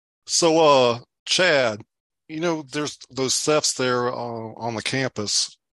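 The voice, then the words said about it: Put-on Southern American accent. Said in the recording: “I'm going to try to do my Southern accent for my character here.”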